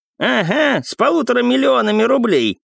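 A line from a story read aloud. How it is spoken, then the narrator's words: Flattered old man's habitual grumble. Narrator (Russian): по привычке пробурчал польщенный старик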